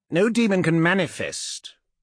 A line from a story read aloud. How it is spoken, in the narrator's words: Laak said sharply